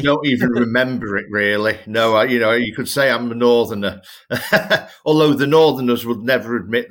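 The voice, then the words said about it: Strong Northern English accent. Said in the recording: “you've got a very strong accent now... Northwest, you know, Merseyside”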